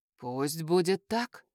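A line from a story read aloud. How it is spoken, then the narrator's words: Whispered. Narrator (Russian): прошептал он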